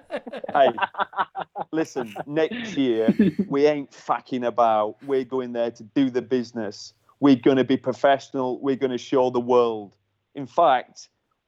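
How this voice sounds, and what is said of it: Put-on Cockney accent. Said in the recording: “he's a proper, like, Cockney accent ... I can't do the accent.”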